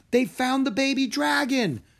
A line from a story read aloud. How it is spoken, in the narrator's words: Drake cried